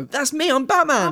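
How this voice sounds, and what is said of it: Imitates another person's voice. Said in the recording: “my best Christian Bale impression”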